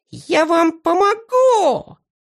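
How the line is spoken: Yelling. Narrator (Russian): вопил Зыза

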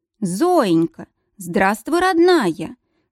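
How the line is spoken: Ringing, joyful greeting. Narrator (Russian): Звонко, радостно поприветствовала хозяйка

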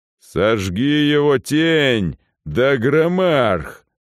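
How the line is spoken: Growled. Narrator (Russian): прорычал тот, кто сейчас владел моим телом

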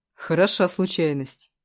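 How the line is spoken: Snorting scoff. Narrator (Russian): фыркнул Костя

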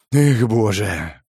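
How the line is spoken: Sigh. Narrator (Russian): Вздохнул я

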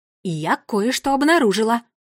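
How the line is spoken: Excited exclamation. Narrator (Russian): Взволнованно воскликнула гвардиния Кникс

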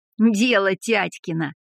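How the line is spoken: Laughing. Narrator (Russian): рассмеялся Рыльский

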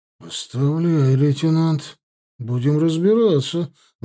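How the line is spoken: Composed reply. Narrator (Russian): взяв себя в руки, ответил Баринов

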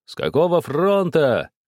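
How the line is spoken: Shouts from crowd. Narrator (Russian): кричали из толпы

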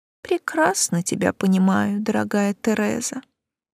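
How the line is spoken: Sympathetic sigh. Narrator (Russian): сочувственно вздохнула моя собеседница

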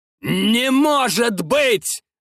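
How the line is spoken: Yelled in disbelief. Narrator (Russian): заорал Гитлер

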